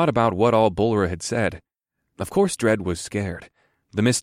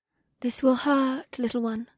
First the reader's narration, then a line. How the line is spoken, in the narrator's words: woman said in a breathy voice